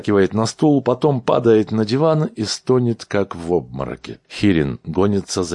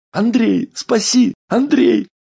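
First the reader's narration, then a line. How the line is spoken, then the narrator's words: Shrieking. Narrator (Russian): взвизгивает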